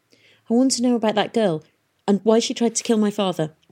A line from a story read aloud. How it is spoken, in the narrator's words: She blurted out